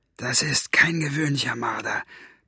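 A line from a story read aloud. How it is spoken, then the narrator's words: Hissed. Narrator (German): zischte Buster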